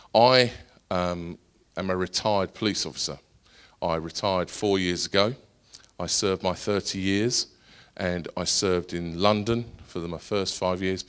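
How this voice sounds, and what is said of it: Essex English accent. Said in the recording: “I'm from Essex ... those of you that are struggling with my accent”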